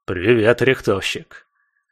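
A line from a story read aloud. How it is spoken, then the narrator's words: Snorting big man. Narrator (Russian): хмыкнул, здоровенный кваз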